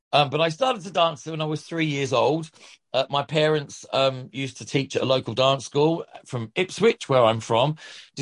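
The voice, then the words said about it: Australian twang. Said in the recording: “this weird Australian twang that I have”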